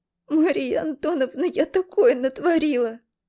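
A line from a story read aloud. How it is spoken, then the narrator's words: Sobbing. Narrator (Russian): разрыдалась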